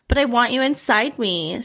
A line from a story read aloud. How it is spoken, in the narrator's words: she whined, almost panicking